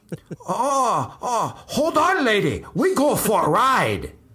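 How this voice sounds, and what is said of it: Exaggerated put-on Asian accent. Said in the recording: “my very offensive Asian accent.”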